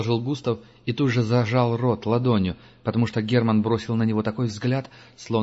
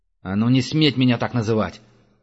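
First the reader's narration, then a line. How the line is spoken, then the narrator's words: Barked. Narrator (Russian): рявкнул охотник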